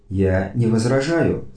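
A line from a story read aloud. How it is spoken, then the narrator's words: Calm reply. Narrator (Russian): спокойно ответил Эзоп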